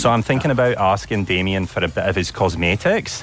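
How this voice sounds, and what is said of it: Good put-on Scottish accent. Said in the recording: “I'm going to go with Scottish. ... You've got such a good Scottish accent.”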